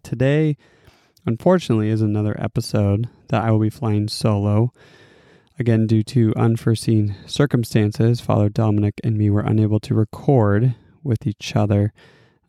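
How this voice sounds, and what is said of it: Congested voice from a cold. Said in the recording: “As you can probably tell from my voice, I'm recovering from a cold ... my cold-induced voice”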